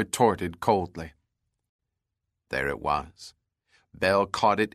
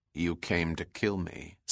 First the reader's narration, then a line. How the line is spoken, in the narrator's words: said Bell evenly